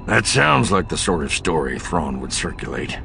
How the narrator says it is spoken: Bel Iblis growled

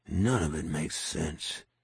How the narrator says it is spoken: he muttered

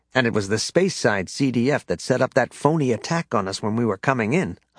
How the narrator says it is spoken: Han said

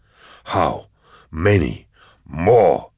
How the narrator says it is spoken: he snarled

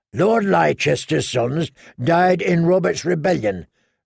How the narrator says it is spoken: grumbled Lem

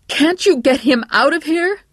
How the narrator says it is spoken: Patty's mother nearly screamed

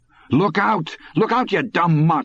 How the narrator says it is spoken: Morris shouted

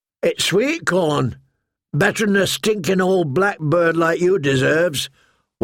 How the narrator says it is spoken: one of them answered roughly

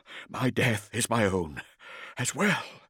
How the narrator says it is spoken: breathed the words as he ran

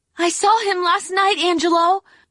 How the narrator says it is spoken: cried Rabatine

